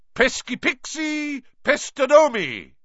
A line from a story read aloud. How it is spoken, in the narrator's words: bellowed